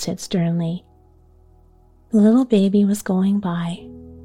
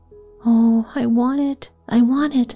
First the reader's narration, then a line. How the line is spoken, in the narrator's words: Laura begged